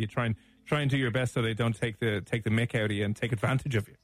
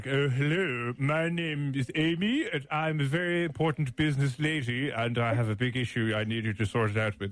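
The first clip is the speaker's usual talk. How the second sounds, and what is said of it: Put-on posh polite phone voice. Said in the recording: “If you put on a posh voice and you're very polite”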